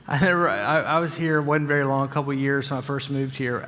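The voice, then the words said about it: Southern US accent. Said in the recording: “Accent was a little thicker than what it is now. You think it's bad now”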